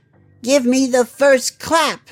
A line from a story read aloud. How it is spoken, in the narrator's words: he said in a loud voice